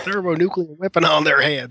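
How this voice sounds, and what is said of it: Stereotypical put-on accent. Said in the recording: “that accent was like, oh my gosh, really? ... So stereotypical.”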